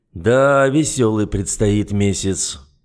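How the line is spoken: Gloomy. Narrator (Russian): мрачно отметил Циммерман

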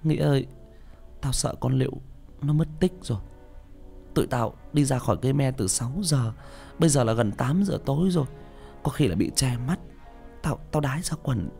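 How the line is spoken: Tearful whimpering. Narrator (Vietnamese): Con Hân mếu máo

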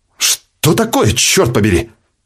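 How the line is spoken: Exclamation. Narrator (Russian): воскликнул главный по смене Миссерш

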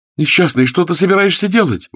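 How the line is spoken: Exclaiming. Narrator (Russian): воскликнула графиня

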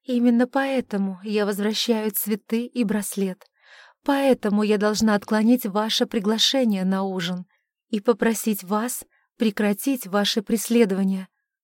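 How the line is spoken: Heated, passionate. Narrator (Russian): с жаром заговорила Александра

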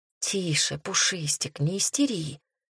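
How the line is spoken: Whisper. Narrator (Russian): прошептала я

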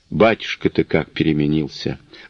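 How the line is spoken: Sigh. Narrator (Russian): вздохнула Миланья

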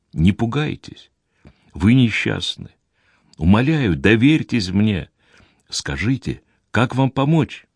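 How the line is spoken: Very gentle speech. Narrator (Russian): очень мягко проговорил

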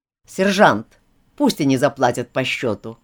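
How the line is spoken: More restrained tone. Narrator (Russian): сказал капитан Тартар более сдержанным тоном

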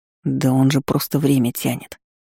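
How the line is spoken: Whisper. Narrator (Russian): шепнул Наэль

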